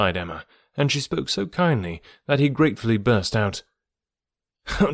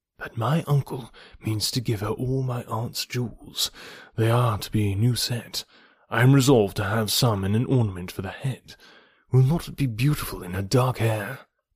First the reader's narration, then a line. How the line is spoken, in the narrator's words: whispering seriously